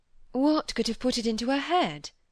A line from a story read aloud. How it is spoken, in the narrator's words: said Cynthia, very quietly